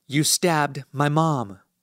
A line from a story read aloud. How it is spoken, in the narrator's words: I mutter, quivering at the fact that I'll never have the chance to hear my mom explain everything to me